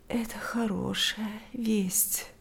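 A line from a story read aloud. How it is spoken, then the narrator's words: Sleepy reply. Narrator (Russian): ответила сонно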